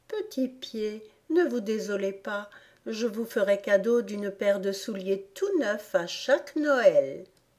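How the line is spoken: Loud, coaxing tone. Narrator (French): ajouta à haute voix et d'un ton câlin

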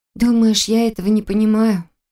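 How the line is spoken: Asked sadly. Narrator (Russian): Грустно поинтересовалась она

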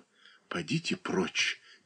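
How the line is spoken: Quiet. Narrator (Russian): тихо произнесла

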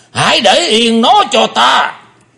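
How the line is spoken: Deep heavy shout. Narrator (Vietnamese): Lão ta nặng trầm quát lớn

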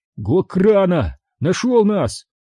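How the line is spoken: Exclamation. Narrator (Russian): воскликнул Оби-Ван

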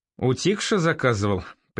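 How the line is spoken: Knowing snort. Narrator (Russian): понимающе хмыкнул Андрей

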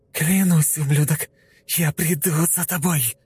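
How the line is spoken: Hoarse rasp. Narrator (Russian): прохрипела она в темноту

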